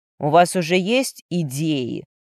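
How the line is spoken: Mocking yet desperate. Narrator (Russian): насмешливо поинтересовался Матвей, но в голосе его прозвучало отчаяние

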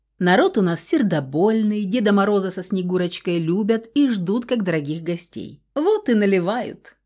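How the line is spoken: Chuckling. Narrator (Russian): хохотнул он в усики

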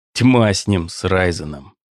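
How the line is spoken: Muttered through clenched teeth. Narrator (Russian): сквозь зубы пробормотал Класхофен

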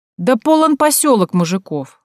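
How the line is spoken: Exclaiming. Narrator (Russian): воскликнула Танька

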